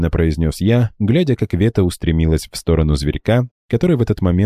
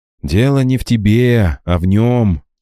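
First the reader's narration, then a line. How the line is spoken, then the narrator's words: Heavy sigh. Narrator (Russian): тяжело вздохнул я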